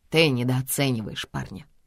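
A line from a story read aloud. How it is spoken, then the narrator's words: Dry. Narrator (Russian): сухо отзывается Эол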